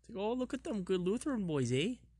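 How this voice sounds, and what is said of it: Put-on Canadian-style accent. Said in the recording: “What is a Canadian accent? It's like a... ... A South Dakota accent?”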